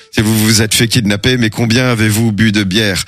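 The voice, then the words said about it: Poor put-on Belgian accent. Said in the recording (French): “Je fais très mal l'accent belge.”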